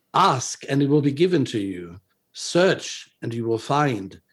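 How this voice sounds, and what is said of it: German-accented English. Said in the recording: “I think he probably did not speak with a German accent, but I'll try my best.”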